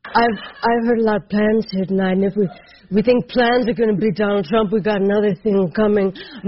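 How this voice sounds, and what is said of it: Kate McKinnon doing a comedic impersonation. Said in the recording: “Kate McKinnon was on one of the shows last night and doing her impersonation.”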